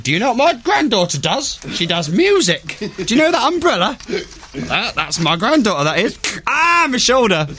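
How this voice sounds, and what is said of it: Elderly grandmother character voice. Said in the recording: “I was just doing a generic grandmother ... I've done an impression of a grandmother”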